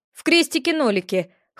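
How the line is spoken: Smirking. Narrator (Russian): хмыкнул он

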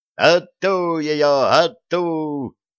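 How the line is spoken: Gleeful shriek from behind. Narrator (Russian): радостно взвизгнул голос сзади

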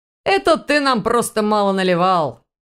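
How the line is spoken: Chuckling loudly. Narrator (Russian): хохотнул Ваня

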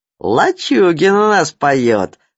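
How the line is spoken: Group laughing. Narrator (Russian): засмеялись геологи

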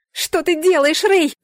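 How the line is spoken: Screaming. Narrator (Russian): заорала я

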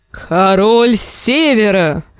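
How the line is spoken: Roared. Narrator (Russian): взревел Большой Джон

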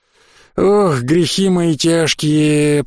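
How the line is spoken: Groaning. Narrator (Russian): простонал я

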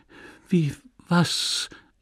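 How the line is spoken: Stammering. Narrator (German): stammelte

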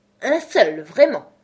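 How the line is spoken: Indignant exclamation. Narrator (French): s'exclama le Loir d'un ton indigné

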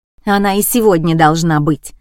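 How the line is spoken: Woman barking. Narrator (Russian): рявкнула красавица

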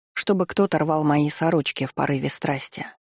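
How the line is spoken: Gloomy. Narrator (Russian): мрачно добавила я

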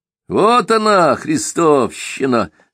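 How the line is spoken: Gloating laugh. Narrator (Russian): злорадно засмеялся Симагин

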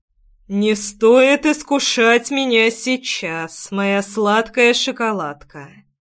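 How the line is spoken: Muffled dragon voice. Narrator (Russian): глухо отозвался дракон

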